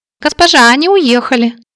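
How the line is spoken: Squeaky voice. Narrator (Russian): пискнула Молли

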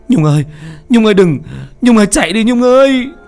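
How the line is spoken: Terrified shout. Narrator (Vietnamese): Duẩn sợ hãi, miệng hét lên

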